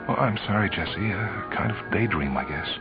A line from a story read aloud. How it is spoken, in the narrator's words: knew that her voice sounded strange as she said